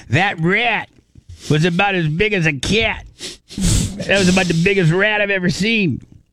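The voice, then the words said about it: Imitated New York accent. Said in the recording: “I can't do my very good New Yorker accent ... my Greg D impersonation. I'm not very good at it.”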